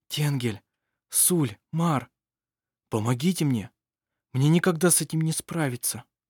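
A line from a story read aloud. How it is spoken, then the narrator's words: Whispering. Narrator (Russian): шептал он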